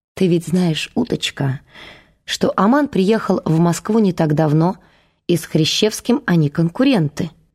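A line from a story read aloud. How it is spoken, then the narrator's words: Soft. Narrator (Russian): мягко сказал Дворкин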